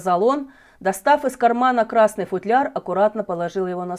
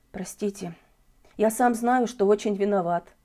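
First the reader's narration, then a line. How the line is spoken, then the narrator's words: Ashamed whisper. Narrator (Russian): прошептал Желтков, глядя вниз, на пол и краснее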